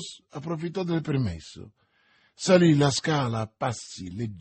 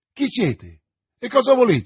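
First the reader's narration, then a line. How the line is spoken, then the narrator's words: Shouting. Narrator (Italian): gridò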